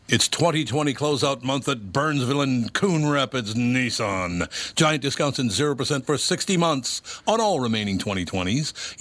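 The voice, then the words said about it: Radio DJ voice. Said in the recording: “that cool DJ voice... I love the sound of a good DJ in the morning.”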